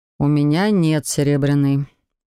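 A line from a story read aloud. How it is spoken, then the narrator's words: Sighed. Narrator (Russian): вздохнул Себастьян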